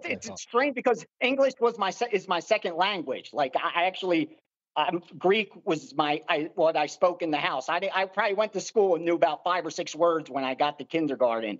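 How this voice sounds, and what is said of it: Philly accent with Greek influence. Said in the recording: “Is that a Philly accent? Is that a Philly or Baltimore? ... a Philly mixed with whatever else that is accent. ... Philly Greek.”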